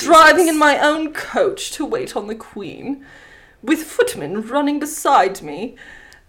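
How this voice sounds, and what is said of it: Refined posh English accent, queenly. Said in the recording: “how beautiful her accent is ... she sounds like a fucking queen”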